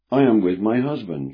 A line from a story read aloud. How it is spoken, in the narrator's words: said calmly